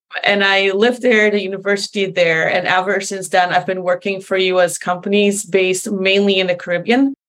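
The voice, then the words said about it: American-influenced English accent. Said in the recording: “I moved to the US, which is also where I got this accent from”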